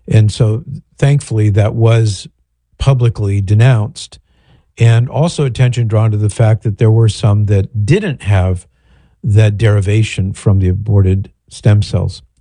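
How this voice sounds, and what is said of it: Husky, throaty voice. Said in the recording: “my voice is, got a frog in my throat here”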